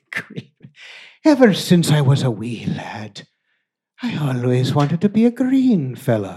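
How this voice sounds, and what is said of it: Put-on Irish accent, still rough. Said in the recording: “How about that fucking accent ... It's getting there ... Is it Irish? ... Irish.”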